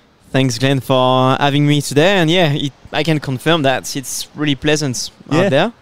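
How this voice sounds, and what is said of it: French accent. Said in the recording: “you have a nice little accent. ... coming from Normandy, northwest of France originally”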